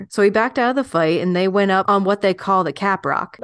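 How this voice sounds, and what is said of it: Put-on storytelling accent. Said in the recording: “I'm loving the accent, by the way. ... I think he's just overtaking me right now. ... I'm letting him possess me.”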